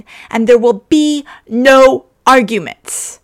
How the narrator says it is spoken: Ed shouted

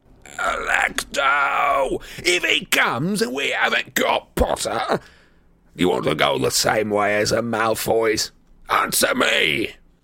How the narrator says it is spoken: Amicus bellowed

